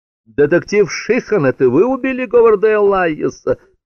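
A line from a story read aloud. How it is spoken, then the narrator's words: Woman shouting. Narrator (Russian): крикнула какая-то женщина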